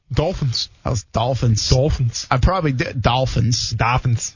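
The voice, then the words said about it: Boston-like accent on one word. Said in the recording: “I said that kind of funny. The Dolphins. ... That's not like a Rhode Island accent ... That's like that's like that's Boston.”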